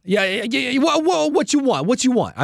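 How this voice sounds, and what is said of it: Put-on New York accent. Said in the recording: “the New York accent guy that's serving. ... Give me your best New York.”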